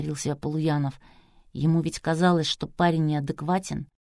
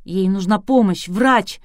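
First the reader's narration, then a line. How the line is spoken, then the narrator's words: Hysterical shout. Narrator (Russian): истерически выкрикнул спортсмен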